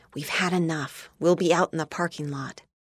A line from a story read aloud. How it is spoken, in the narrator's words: whispered